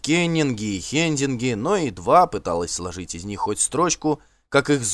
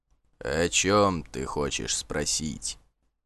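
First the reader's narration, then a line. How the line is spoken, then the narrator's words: Low rumbling voice. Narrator (Russian): низким голосом, как из-под земли, прогудел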